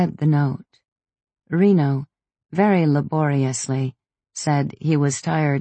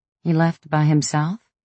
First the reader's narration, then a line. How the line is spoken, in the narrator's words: I asked